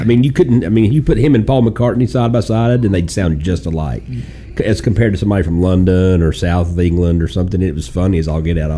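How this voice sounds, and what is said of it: American Southern accent. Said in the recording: “you know how I've got a Southern accent.”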